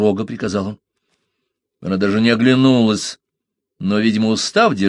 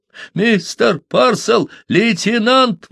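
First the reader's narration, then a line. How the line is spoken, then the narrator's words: Menacing yell. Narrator (Russian): вопил Смедж, угрожающе погровев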